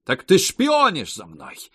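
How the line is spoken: Shouting. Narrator (Russian): закричала она

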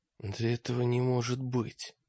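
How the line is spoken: Whisper. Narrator (Russian): прошептал Гольш

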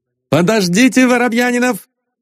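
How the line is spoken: Shout. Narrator (Russian): крикнул Остап

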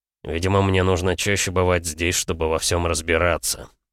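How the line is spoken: Gloomy. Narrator (Russian): мрачно произнес Максуд

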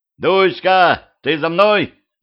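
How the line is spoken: Shouted. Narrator (Russian): закричал

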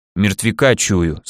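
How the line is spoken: Calm, nearby. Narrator (Russian): спокойно произнес пастор, где-то рядом

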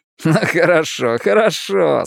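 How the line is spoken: Laughing exclamation. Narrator (Russian): смеясь воскликнул Ричи

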